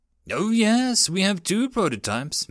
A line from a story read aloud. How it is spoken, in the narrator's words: said cheerfully